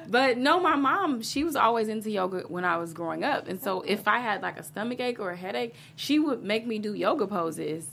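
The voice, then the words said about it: Slight Texas twang accent. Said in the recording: “I kind of have a little bit of ... an accent, a little twang there”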